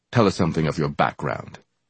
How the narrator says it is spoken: Brother Jack said, his voice and manner demanding truthful answers

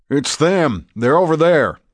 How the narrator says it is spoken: he yelled

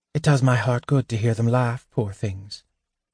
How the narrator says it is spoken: she said softly

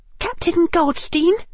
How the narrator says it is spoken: she said, and her voice trembled only a little

